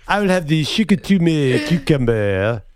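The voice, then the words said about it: Put-on French accent. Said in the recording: “Can you do that in a French accent?”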